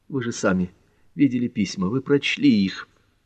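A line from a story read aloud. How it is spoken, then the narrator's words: Sighing. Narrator (Russian): Квин вздохнул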